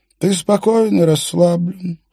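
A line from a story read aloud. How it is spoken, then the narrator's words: Slow singsong. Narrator (Russian): медленно нараспев говорил Столеоне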